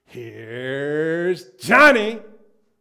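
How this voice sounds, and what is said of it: Jack Nicholson impression from The Shining. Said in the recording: “his best Jack Nicholson impersonation. Not the one from One Flew Over the Cuckoo's Nest, the one from The Shining.”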